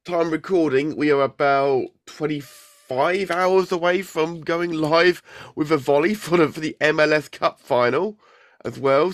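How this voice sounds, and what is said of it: Hoarse, congested voice. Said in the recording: “as you can tell by my voice, I've had a bit of a week. I had a terrible, terrible cold all week. ... I've still got a little bit of the voice”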